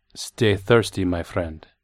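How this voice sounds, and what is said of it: Syrupy put-on Spanish accent. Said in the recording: “he said in a syrupy Spanish accent.”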